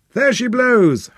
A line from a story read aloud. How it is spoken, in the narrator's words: howled the lieutenant